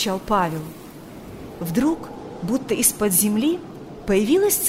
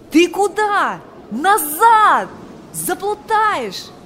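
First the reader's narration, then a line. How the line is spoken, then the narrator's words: Shouting. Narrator (Russian): кричал он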